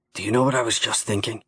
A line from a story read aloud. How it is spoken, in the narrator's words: he said, his voice barely more than a whisper